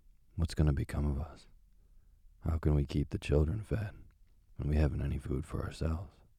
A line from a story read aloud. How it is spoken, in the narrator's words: worrying about their poverty, he sighed and said to his wife